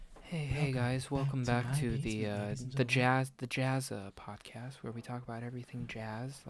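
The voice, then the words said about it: Flat monotone delivery. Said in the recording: “like just at this monotone tone”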